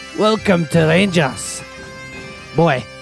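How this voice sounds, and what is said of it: Put-on Scottish accent. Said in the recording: “Accent. ... impersonate your people”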